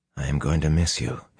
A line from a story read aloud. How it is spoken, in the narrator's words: he said quietly